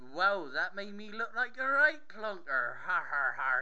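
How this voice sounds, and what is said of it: Bad put-on Cornish accent. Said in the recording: “Awful Cornish accent”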